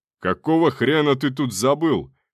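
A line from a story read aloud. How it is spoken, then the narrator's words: Breathless furious yell. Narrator (Russian): пытаясь отдышаться, завопил бешеный шеф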